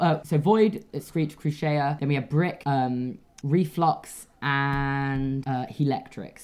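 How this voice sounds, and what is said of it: Usual voice. Nothing is said of it.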